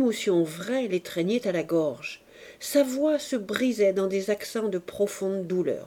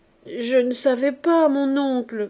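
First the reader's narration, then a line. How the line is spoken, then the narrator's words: Stammering through sobs. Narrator (French): bégaya Fifi, dont les sanglots redoublaient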